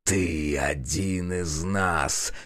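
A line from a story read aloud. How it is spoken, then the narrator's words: Hoarse rasp. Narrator (Russian): хрипит он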